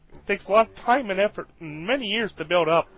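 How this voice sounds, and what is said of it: Kermit the Frog puppet voice. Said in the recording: “Kermit the Frog here”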